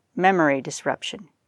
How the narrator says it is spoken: muttered

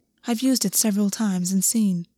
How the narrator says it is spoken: August said quietly

